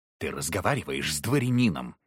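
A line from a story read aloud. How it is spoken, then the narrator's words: Snapping retort. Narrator (Russian): огрызнулся Дорофеев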